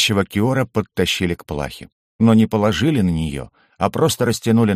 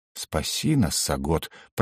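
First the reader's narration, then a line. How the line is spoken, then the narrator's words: Muttered. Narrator (Russian): пробормотал я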